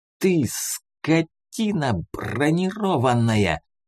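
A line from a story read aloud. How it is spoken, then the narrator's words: Snakelike hiss. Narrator (Russian): шипел змеей Арман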